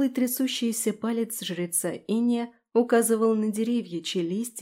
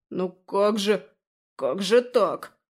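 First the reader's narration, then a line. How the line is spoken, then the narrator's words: Muttering priest. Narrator (Russian): бормотал жрец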